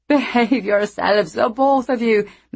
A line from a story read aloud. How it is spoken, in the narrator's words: Meg said, trying unsuccessfully not to laugh